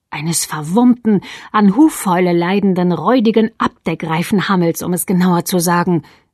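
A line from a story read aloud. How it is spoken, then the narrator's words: Hissed. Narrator (German): zischte Alice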